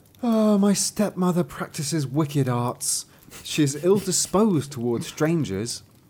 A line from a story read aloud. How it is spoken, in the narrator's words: The young maiden sighed and said